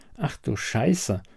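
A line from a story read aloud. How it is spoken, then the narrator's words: Murmur. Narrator (German): murmelte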